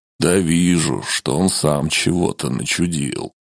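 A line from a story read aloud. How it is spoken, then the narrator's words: Gloomy proclamation. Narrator (Russian): мрачным голосом провозгласил Килиэль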